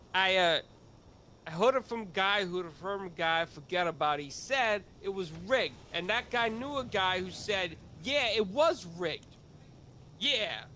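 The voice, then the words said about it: Put-on Italian-American accent. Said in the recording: “When you talk like that, you sound like a real Italian”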